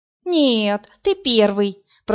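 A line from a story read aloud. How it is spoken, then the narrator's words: Moaning. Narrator (Russian): простонала Марина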